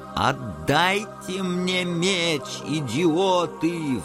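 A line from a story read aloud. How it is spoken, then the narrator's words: Howling. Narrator (Russian): взвыл Резенкампф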